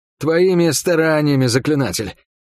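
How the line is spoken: Hoarse wheeze. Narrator (Russian): просипел я

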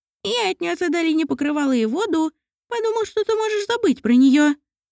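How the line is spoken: Squeak. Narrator (Russian): пропищал Мамонтик

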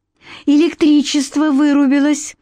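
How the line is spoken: Cheerful statement. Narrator (Russian): радостно поставила диагноз

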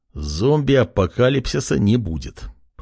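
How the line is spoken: Young man muttering. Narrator (Russian): пробормотал парень

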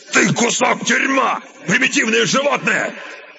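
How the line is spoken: Sudden shout. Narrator (Russian): Неожиданно он крикнул охраннику

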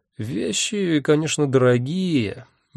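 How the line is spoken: Hesitant drawl. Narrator (Russian): нерешительно протянул

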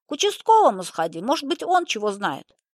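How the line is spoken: Old woman shouting after. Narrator (Russian): крикнула ему вслед старуха

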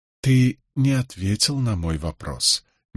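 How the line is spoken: Soft objection. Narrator (Russian): мягко возразил

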